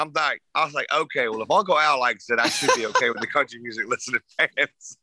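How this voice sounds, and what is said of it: Usual voice. Nothing is said of it.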